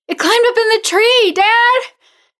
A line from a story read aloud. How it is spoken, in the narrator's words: she shrieked